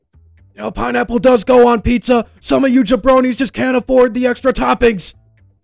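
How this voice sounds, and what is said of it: Loud Dwayne The Rock Johnson impression. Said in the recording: “I gotta say it like him. How do I do a Rock impression? ... That probably destroyed my mic ... I just saw my audio spike so hard on my levels by doing that”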